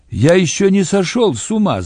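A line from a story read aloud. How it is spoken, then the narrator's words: Shouting. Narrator (Russian): закричал он мне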